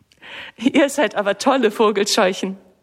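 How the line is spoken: Laughing. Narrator (German): lacht sie

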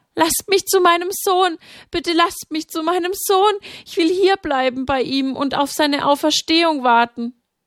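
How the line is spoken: Pleading. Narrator (German): Maria flehte

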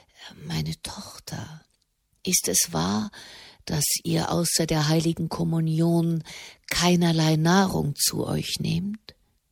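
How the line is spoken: Almost a whisper. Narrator (German): So leise, dass es schon fast ein Flüstern war, sagte er

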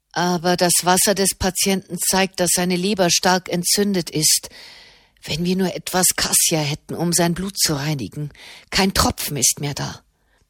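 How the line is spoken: Murmured. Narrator (German): murmelte Marquesano

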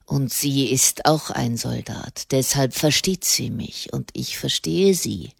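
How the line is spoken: Growl. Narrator (German): knurrte er

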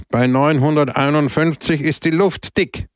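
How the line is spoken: Loud speech. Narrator (German): sagte er laut

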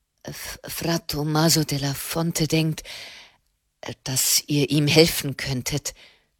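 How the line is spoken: Stammering. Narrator (German): stammelte er

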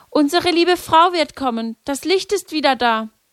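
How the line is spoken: Excited cry. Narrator (German): sprang Lucia auf und rief

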